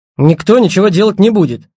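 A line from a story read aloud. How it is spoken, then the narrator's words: Snort. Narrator (Russian): фыркнул Сорокин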